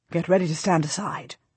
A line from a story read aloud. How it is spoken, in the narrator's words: Richard says quietly behind me